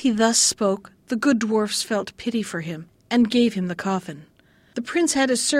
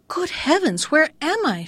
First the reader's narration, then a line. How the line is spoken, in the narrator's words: she cried out